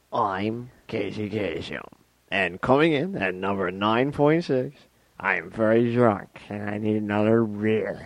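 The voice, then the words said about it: Casey Kasem impression, drunk-sounding. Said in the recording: “You want to do Casey Kasem here? ... That sounds like a drunk Ed McMahon.”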